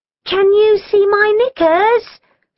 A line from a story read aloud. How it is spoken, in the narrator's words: she called anxiously